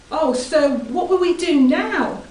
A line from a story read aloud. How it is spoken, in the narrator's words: the young man cried to Elisha